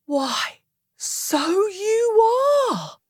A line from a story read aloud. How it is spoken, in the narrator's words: cried